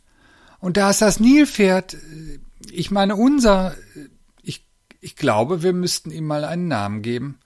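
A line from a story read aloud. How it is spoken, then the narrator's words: Shouted. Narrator (German): rief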